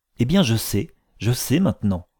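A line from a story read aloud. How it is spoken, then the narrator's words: Ardent exclamation. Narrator (French): s'écria-t-elle avec ardeur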